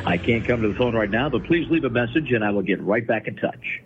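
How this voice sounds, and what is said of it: Polished radio announcer voice. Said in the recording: “He's got that radio voice down for a voice.”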